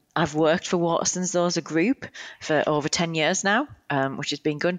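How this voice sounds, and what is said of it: British accent. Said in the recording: “you'll tell from my accent, I'm originally from the UK”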